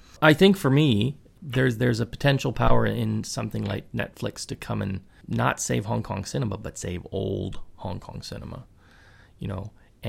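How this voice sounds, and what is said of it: Hoarse, fading voice. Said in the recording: “talking like an old timer because my voice is going out”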